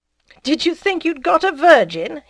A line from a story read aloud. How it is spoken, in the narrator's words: he exclaimed, laughing